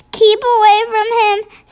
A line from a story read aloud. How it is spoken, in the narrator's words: Sophie pleaded